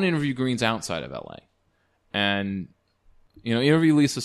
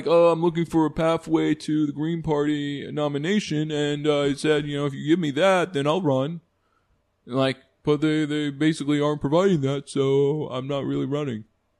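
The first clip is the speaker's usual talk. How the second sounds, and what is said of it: Imitates another person's voice. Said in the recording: “Good impression, actually. I'm surprising myself.”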